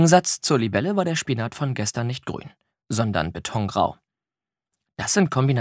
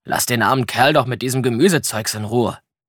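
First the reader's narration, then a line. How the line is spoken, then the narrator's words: Blustering outburst. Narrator (German): polterte er los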